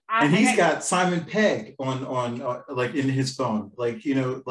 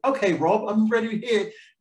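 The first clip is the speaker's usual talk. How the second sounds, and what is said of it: Put-on British accent. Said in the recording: “that's my terrible British accent ... it's pretty good, though”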